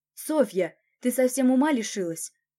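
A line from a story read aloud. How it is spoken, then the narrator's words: Sharp cry. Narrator (Russian): вскрикнул Николай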